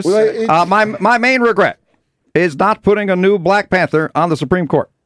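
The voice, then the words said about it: Bad Barack Obama impression. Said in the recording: “my bad Obama impression”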